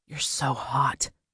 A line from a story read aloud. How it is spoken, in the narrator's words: he whispered